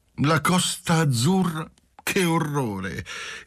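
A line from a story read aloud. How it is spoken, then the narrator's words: Cheerful, impetuous singsong voice. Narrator (Italian): esclamava intanto Lina, contenta dell'aiuto di Marcello, allegramente, impetuosamente, con voce cantante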